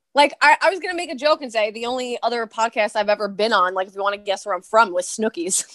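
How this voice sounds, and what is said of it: East Coast accent. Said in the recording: “You can also tell by like the East Coast accent. ... when you open your mouth”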